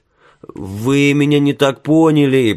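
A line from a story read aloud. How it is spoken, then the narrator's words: Moaning. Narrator (Russian): простонал Билл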